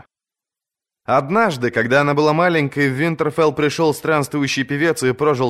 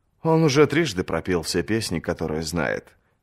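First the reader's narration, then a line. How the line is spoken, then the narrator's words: Soft. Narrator (Russian): мягко сказал дочери лорд Эддард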